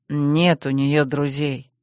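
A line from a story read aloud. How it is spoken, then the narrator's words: Gloomy words through teeth. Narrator (Russian): снова мрачнее процедил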